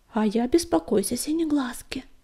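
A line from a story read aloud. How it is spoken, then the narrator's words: Quiet interjection. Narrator (Russian): негромко вставила горностайка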